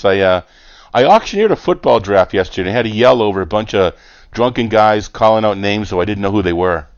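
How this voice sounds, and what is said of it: Slightly hoarse voice. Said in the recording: “Sorry if my voice is a little hoarse.”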